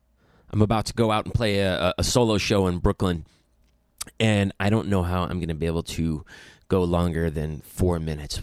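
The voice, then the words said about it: Sick-sounding, congested voice. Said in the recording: “I have been sick this past week. You can probably hear it in my voice”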